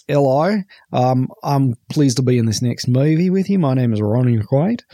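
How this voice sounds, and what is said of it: Put-on Australian accent. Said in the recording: “he's speaking in an Australian accent.”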